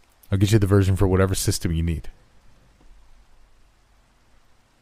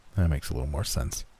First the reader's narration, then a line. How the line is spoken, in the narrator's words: Paul mumbled to himself